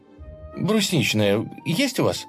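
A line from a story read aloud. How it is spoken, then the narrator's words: Absent-minded finishing, girl. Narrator (Russian): Машинально договорила девушка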